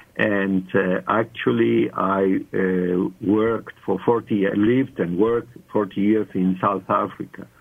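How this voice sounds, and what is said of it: Charming non-South African accent. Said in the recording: “my accent is not ... it's a charming accent”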